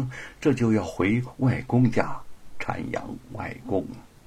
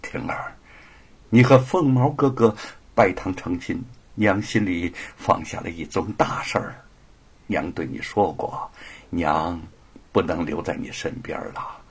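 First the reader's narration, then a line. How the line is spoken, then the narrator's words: Tearful smile. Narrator (Chinese): 灵真含泪带笑的说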